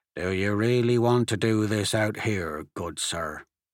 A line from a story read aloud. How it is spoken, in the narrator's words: the sheriff said in a low voice